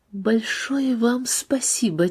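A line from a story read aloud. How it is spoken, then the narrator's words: Quiet reply. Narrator (Russian): тихо ответила ей Надежда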